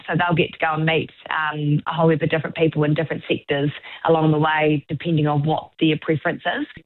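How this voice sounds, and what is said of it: New Zealand Southland accent. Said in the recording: “Love that Southland accent”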